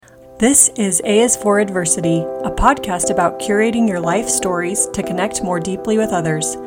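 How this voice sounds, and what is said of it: Congested, sick-sounding voice. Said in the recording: “I'm sure you can hear it in my voice, but we've had colds this week”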